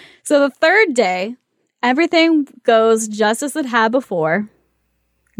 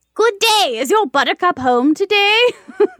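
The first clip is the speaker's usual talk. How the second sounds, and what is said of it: Witch character voice. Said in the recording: “Great witch voice”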